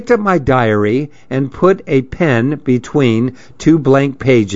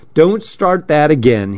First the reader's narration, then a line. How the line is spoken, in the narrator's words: he snapped